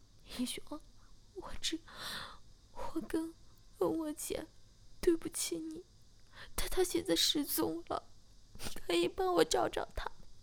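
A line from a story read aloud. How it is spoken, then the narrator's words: Crying. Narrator (Chinese): 小柔马上哭着说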